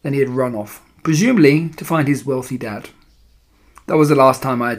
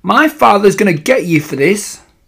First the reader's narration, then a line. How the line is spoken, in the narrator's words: had leapt up shrieking